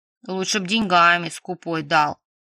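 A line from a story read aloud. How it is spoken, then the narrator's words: Grumbling. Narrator (Russian): проворчала Дашка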